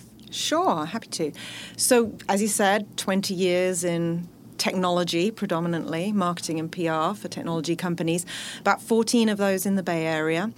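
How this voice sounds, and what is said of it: British accent. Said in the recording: “I actually started my career in the UK, as you can probably tell from my accent”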